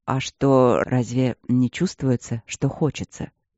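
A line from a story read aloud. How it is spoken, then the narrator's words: Low whisper. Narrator (Russian): Прошептал низко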